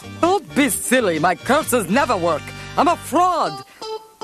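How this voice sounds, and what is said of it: Fake foreign accent. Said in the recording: “my accent isn't even real”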